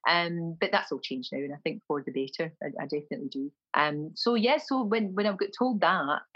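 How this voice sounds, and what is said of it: Glasgow accent. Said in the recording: “my accent was terrible. My accent was offensive, my Glasgow accent.”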